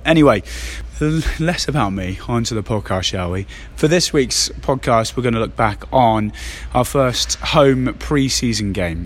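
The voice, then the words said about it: Hoarse, scratchy voice. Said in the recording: “Despite what my voice sounds like, this is actually me. Just got a bit of a tickly throat ... despite the sore throat”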